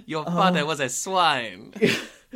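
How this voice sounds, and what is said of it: Put-on Snape character voice. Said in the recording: “Wagner as Snape ... We said we weren't going to do the accent, and now we've just done it.”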